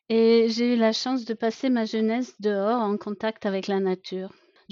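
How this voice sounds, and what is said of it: Slight German accent speaking French. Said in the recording (French): “j'ai grandi à la campagne en Allemagne, d'où mon petit accent.”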